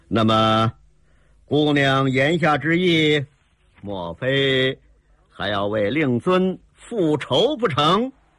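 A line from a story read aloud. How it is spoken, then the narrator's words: Cold. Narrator (Chinese): 铁海棠冷冷地说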